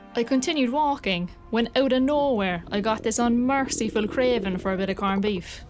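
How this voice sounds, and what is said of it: Irish Cork accent. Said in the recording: “my Cork accent”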